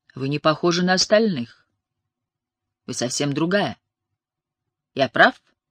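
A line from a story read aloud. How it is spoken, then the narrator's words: Aristocratic English, slight accent. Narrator (Russian): Танаки говорил на аристократическом английском с легким акцентом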